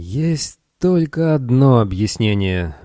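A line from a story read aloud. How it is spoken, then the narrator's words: Exclaimed. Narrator (Russian): воскликнул Арнольд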